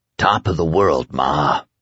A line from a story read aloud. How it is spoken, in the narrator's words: croaked